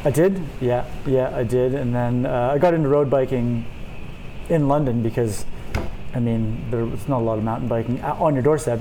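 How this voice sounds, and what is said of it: Canadian accent. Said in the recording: “you grew up in Canada, in case anyone is wondering what that accent is.”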